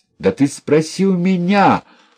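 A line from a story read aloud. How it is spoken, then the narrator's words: Yelling. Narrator (Russian): орал тогда Кондрат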